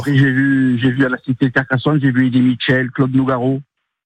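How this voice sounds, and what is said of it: Slight regional French accent. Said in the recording (French): “D'où le petit accent.”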